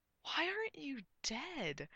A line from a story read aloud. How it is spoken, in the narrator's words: Arthur gasped